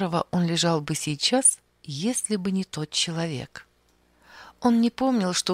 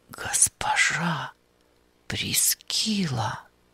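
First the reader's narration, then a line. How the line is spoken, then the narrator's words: Whisper. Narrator (Russian): прошептал он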